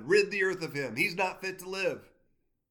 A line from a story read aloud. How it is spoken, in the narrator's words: they raised their voices and shouted